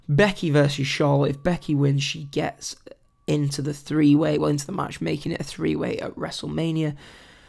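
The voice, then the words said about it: Strained, damaged voice. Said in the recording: “I'm sure you can tell my voice is messed up”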